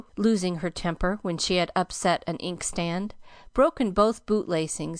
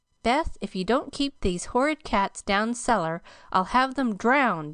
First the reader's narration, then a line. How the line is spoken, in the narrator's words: exclaimed Meg angrily